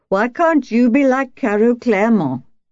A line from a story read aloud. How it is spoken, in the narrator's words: Now she was her husband, his voice thick with beery rage